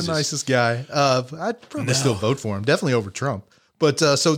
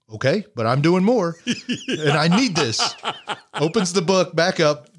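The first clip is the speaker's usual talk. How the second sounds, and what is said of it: Imitated Bernie Sanders voice. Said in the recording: “Good imitation, too. You do good voices.”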